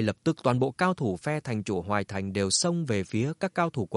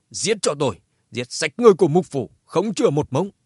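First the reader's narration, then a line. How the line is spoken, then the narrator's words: Loud shout. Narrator (Vietnamese): Như thể đáp lại lời cảnh cáo của Mục thanh chủ Hoài Thành hét to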